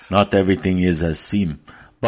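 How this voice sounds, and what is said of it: Mr. Miyagi accent impression. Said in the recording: “Is that in your Miyagi, Miyagi accent?”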